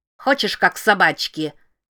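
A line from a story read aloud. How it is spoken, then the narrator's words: Boy's harsh bark. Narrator (Russian): рявкнул каменный мальчишка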